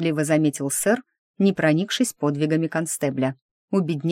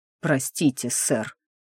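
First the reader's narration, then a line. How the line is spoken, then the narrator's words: Strangled mutter. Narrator (Russian): пробормотал он сдавленно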